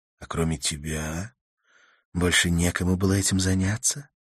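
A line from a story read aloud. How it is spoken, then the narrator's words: Soft question. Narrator (Russian): мягко спросила Карла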